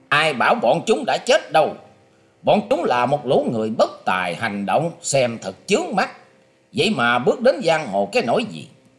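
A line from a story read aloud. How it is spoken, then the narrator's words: Harsh angry shout. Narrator (Vietnamese): Nam Cung Bách Thu gằn giọng quát lên rằng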